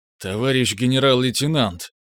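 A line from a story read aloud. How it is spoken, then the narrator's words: Confused, drawn-out. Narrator (Russian): растерянно затянул хозяин кабинета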